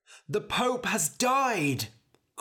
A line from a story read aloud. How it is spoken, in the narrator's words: cried a man